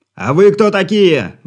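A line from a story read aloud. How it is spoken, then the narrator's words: Shouted reply. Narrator (Russian): выкрикнул в ответ Игорь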